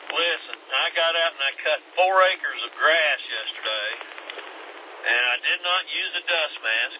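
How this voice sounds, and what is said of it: Congested, stuffy-nosed voice. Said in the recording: “I'm paying for it today ... I caught her nasty cold ... that's why I sound like a snotzo”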